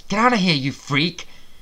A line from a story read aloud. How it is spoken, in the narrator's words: I gasped